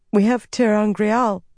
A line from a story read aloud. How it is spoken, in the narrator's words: Shiryam said hesitantly